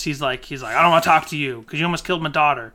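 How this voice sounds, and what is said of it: Impression of a movie character. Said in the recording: “It was a very good Charlie impression.”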